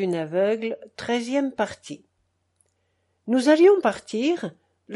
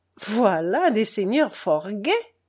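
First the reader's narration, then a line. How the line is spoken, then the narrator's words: Plain. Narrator (French): dit l'archevêque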